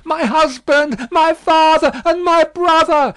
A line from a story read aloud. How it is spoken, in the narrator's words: she constantly uttered piercing shrieks and repeated the words